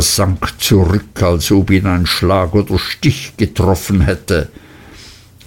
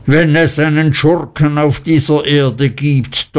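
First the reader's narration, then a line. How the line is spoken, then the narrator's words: Thundering. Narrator (German): donnerte Mr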